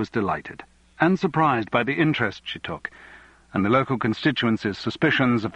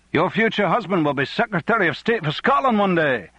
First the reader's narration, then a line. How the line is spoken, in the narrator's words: many of them shouted